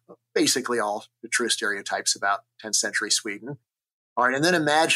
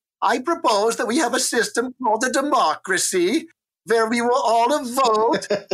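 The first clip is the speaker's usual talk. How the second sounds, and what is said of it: Put-on Scandinavian accent, sounding German. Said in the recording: “It sounds German, by the way... The Scandinavian accent is more singer-songy like this.”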